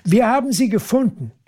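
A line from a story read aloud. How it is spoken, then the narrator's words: Calls out. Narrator (German): ruft Annemie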